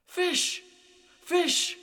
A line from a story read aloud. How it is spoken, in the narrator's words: He cried